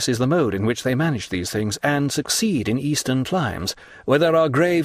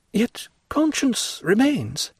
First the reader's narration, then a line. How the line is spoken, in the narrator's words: remarked Madame de Villefort, in an agitated voice and with a stifled sigh